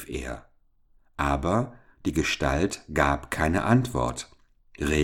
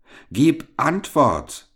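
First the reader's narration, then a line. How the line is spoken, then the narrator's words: Boy calling out. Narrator (German): rief der Junge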